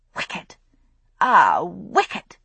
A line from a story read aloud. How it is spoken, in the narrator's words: she exclaimed